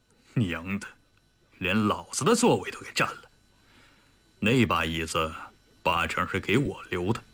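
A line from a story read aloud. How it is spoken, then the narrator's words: Sneering. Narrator (Chinese): 李云龙冷笑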